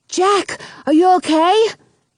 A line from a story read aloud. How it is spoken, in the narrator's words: asks desperately